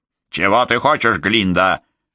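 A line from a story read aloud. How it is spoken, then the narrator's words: Barked. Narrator (Russian): рявкнула она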